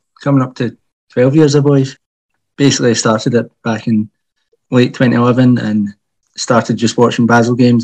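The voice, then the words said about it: Glaswegian accent. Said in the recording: “it's a Glaswegian accent”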